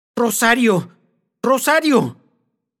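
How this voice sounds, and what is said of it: Fierce, exclaimed tone. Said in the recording (Spanish): “exclamó Doña Perfecta con terrible acento.”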